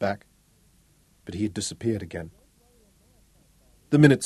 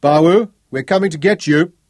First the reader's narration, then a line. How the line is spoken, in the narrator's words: Craig cupped his hands and bellowed